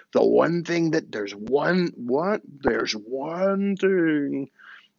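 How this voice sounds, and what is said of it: Weak Jack Palance impression, Muppet-like. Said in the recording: “in his Jack Palance voice... I'm not doing a very good Jack Palance impression... that's like a mix between a Muppet and Jack Palance”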